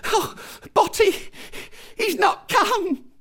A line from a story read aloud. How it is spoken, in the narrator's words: said hysterically